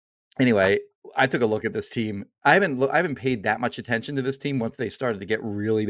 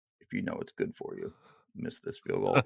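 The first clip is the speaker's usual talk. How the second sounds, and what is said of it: Imitates another person's voice. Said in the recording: “that was a pretty good Belichick impression.”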